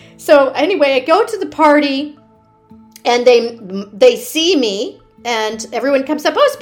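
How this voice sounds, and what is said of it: Usual voice. Nothing is said of it.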